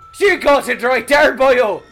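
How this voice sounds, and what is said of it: Exaggerated fake Irish accent. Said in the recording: “Irish beat cop ... accents were so preposterous ... forcibly trying to throw Irish references in my speech”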